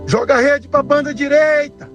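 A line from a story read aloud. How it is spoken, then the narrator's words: Shouting. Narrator (Portuguese): Jesus grita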